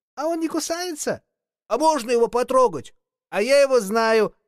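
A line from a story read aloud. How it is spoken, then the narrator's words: Boy shouting excitedly. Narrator (Russian): закричал один мальчик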